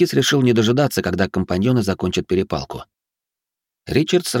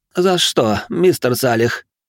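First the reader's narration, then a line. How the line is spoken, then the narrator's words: Strained, forced out. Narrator (Russian): выдавил из себя молодой человек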